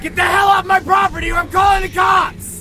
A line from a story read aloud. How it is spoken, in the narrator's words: shouted